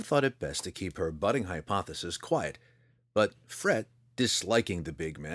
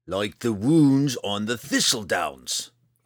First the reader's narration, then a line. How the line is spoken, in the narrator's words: Roddy snarled